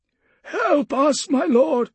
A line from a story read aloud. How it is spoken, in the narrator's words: one man pleaded, cradling a broken arm